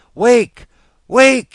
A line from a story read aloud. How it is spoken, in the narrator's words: he wailed